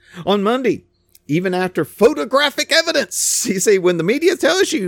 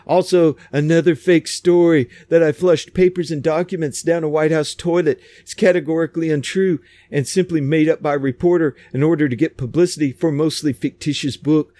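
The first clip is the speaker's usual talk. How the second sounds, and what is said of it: Donald Trump impression. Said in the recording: “That was a pretty good Trump imitation. I usually don't do a very good Trump imitation.”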